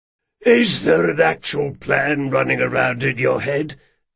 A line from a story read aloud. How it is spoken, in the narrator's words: wheezed Jean